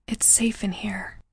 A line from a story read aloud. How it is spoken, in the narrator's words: I whispered